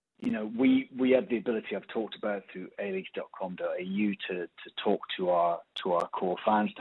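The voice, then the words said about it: British English accent. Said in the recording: “probably tell by my accent, I come from the UK.”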